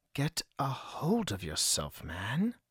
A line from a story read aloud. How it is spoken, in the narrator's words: he mumbled to himself